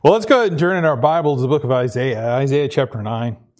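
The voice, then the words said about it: Voice still a little off. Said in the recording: “My voice is still a little, you know, getting used to it, getting back into the groove of things. ... you have some tubes and pipes down your throat for 12 hours. Things are going to be a little dicey”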